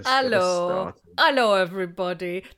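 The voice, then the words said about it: Silly cat voice. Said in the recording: “That's my cat voice.”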